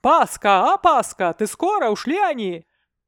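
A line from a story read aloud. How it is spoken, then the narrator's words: Man shouting behind curtain. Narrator (Russian): Из-за занавески мужской голос крикнул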